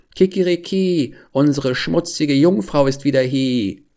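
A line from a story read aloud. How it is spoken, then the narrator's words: Rooster crowing out. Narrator (German): der Hahn auf dem Brunnen, als er sie sah, rief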